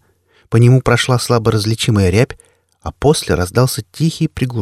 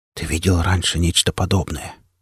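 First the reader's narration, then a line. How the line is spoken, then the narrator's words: Cautious whisper. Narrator (Russian): шепотом произнес механик, словно боясь спугнуть наваждение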